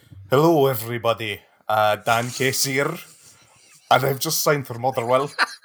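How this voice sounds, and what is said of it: Put-on Scottish accent. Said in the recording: “say hello to everyone in a Scottish accent, okay, in the form of a Motherwell Scottish accent”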